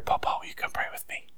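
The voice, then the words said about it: Whispered child's request. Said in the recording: “whisper in my ear”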